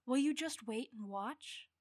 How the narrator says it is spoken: I sighed quietly, having seen this trick once or twice before

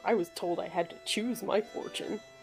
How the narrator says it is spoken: Todd's just going to grumble

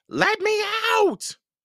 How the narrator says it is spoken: Hogsqueal yelled

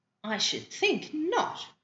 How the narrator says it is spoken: exclaimed Diana indignantly

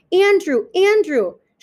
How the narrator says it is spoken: He's yelling

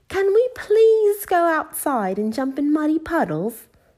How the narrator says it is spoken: asked Peppa excitedly

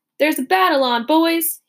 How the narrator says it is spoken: yelled

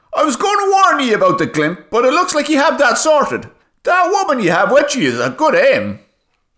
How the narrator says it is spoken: shouted the Jupiterian back

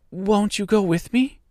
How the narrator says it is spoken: pleaded the girl, who had begun to look upon the little old woman as her only friend

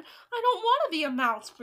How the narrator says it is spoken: Bruno shouted

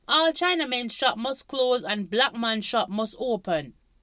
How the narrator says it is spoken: Other people in the crowd shouted

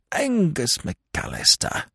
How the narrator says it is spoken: observed Lord Emsworth bitterly

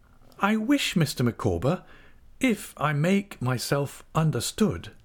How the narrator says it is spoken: said Mrs

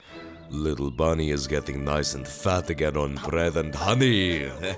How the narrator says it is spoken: he chuckled

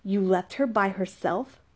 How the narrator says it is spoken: Raphael questioned angrily

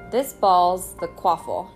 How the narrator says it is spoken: said Wood

